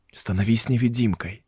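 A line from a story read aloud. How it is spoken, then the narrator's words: Whispering. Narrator (Russian): зашептал я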